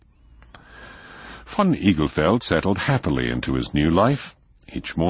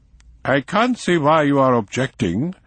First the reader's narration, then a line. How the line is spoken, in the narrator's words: said Vogelsang haughtily